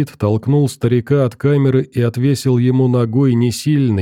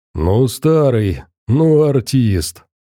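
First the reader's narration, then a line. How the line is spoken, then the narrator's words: Laughing bass voice, bandit. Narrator (Russian): засмеялся рядом басом незнакомый Венику бандит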